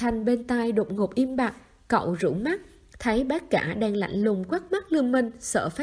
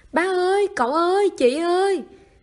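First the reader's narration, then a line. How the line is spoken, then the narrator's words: Loud scream. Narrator (Vietnamese): Cao Nhiên gào to lên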